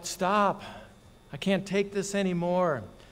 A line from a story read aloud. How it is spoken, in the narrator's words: I got hotter and hotter and hotter, and I cried out